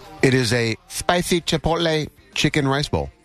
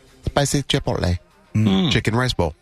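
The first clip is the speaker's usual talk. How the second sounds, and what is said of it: Put-on accent on food name. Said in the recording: “Little pop-up accent comes with it... Got to be authentic to the food... we've called that a pop-up accent”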